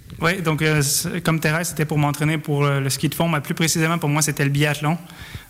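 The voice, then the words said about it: French with North American accent. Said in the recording (French): “on, va l'entendre un petit peu à votre accent. ... vous venez de l'autre côté de l'Atlantique.”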